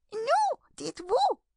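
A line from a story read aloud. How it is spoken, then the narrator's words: Trembling mouse's exclamation. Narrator (French): s'écria la souris, en tremblant de la tête à la queue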